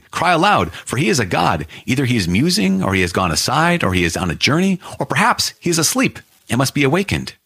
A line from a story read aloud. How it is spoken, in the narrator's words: Elijah mocked them, saying